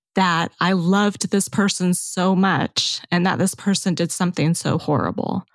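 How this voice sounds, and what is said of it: Choked-up, emotional voice. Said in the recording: “I'm going to get a little bit choked up”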